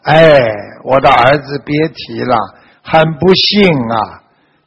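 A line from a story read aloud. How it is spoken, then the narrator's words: Sighing old woman. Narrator (Chinese): 这个老夫人叹息道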